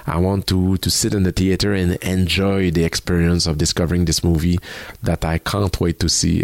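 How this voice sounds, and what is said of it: French accent. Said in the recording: “the one with the French accent”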